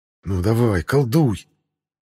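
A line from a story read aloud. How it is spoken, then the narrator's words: Silent inner plea. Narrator (Russian): Мысленно взмолился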